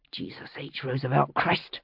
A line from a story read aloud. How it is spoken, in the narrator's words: I muttered under my breath